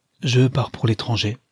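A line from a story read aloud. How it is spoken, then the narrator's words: Serious young man. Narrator (French): répondit le jeune homme d'une voix sérieuse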